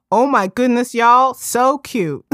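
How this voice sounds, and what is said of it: Put-on Southern drawl. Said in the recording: “I'm going to put on the Southern drawl”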